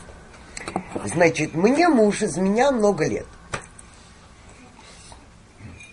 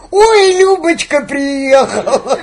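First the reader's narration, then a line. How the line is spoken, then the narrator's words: Joyful. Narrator (Russian): радостно говорит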